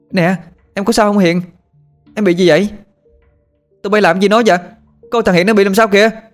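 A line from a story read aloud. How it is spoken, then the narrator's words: Frantic shout. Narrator (Vietnamese): Con Thảo cuống cuồng hét lên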